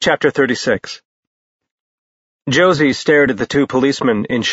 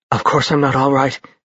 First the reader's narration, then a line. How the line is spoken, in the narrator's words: she said faintly